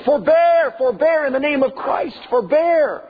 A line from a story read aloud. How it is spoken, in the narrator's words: stand up and yell